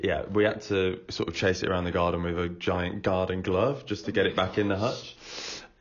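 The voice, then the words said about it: Birmingham accent. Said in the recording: “that's the way the Birmingham accent goes, like fluffer rather than fluffy ... are you from Birmingham? ... Yeah, yeah.”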